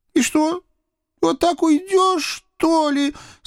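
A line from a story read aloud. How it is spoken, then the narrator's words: Sobbing call after. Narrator (Russian): Со всхлипом раздалось мне вслед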